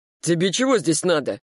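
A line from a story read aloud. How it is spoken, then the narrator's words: Barked. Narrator (Russian): рявкнул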